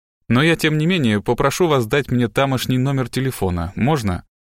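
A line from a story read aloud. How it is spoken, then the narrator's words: Plain. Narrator (Russian): сказал Страйк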